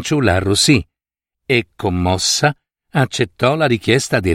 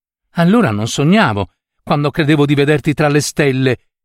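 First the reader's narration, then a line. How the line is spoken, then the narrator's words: Exclaiming. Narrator (Italian): esclamò Pandajan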